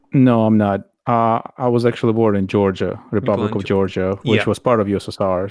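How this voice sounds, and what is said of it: Slight foreign accent. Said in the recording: “this slight hint of an accent you've got”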